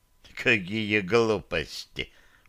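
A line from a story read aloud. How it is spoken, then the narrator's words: Contemptuous snort. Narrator (Russian): презрительно фыркнул Радик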